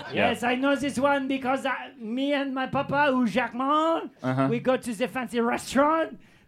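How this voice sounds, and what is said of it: Put-on French character accent. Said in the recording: “I'm French ... The accent is bred into me”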